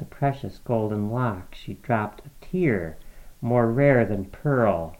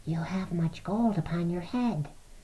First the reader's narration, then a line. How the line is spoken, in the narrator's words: they whispered all together